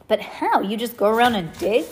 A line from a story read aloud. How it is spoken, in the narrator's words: Elsa laughed